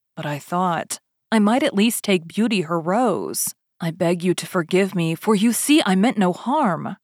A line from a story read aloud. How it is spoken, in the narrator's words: the beast said in a less furious tone